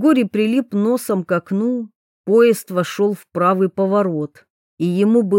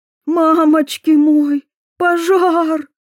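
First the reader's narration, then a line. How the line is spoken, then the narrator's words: Sobbing. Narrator (Russian): всхлипнула Виолетта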